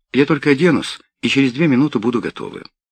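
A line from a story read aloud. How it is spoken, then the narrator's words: Cheerful. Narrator (Russian): весело добавила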